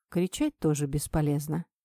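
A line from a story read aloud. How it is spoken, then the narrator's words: Calm reply. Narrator (Russian): спокойно ответил мужчина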